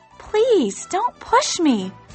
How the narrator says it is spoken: cried the chick

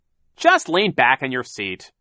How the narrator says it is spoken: Captain Sham said sharply

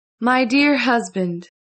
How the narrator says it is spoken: she said in a sweet voice

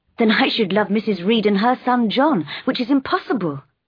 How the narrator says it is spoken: I cried

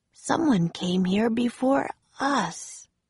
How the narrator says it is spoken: Jack said softly

